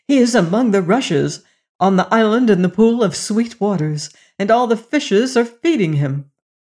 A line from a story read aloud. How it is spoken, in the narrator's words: she knew, and running to her messengers, she cried